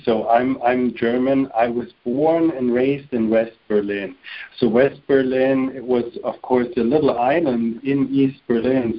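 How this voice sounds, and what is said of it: German accent. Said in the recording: “I'm already German. I think everybody understood this by now because of the accent.”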